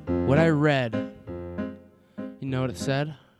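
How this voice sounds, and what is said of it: Creepy put-on voice. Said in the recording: “He's put on his creepy voice again.”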